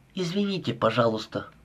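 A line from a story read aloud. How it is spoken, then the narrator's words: Apologetic mumble. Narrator (Russian): пробормотала Холли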